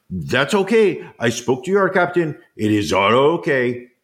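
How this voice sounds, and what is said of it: Put-on Senegalese accent. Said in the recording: “Was that a Senegalese accent you just did right there? ... That was my attempt at it.”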